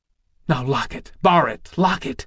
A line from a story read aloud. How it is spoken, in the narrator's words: she gasped wretchedly